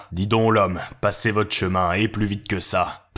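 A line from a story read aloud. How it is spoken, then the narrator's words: Boy grumbling. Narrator (French): Le garçon grogna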